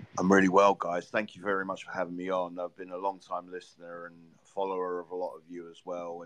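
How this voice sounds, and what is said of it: Hoarse, worn-out voice. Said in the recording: “excuse my voice from screaming and shouting at the game today”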